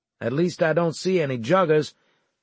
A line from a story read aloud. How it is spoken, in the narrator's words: I responded in the cheeriest voice I could muster